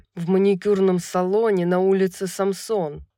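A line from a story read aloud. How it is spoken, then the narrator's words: Through gritted teeth. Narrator (Russian): произнес он сквозь зубы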